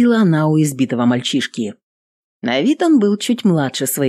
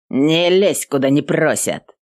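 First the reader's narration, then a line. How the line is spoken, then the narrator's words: Rude, curt retort. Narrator (Russian): грубо отрезал один из них, тот, что был покрепче и повыше остальных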